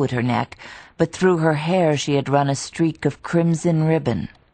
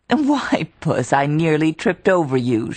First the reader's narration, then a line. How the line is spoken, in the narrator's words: she cried, the laughter sparkling through her lashes